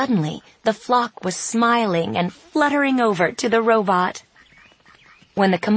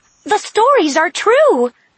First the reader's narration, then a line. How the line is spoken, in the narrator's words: a voice blurted out